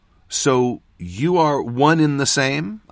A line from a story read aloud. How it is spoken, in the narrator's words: I said